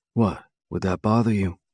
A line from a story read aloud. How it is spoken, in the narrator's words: He asks in a softer tone